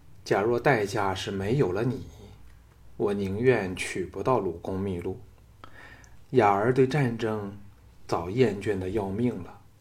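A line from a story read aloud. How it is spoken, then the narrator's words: Sighing. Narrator (Chinese): 雅夫人叹道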